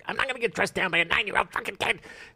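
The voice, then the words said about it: Imitates another person's voice. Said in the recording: “best impression you've ever done”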